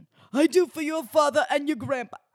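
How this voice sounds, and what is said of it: Poor Jersey accent, sounds Russian. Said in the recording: “It's a terrible accent. That was like Russian. ... My Jersey impressions need a lot of work ... He does have that scratchy voice”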